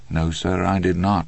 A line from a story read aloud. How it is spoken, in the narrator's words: Andy said calmly